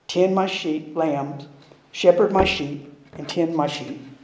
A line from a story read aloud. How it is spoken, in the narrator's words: The great shepherd gently smiled and said